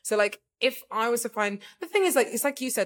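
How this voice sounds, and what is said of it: Speaks with a noticeable accent. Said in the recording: “I was speaking quick and my accent came out a bit”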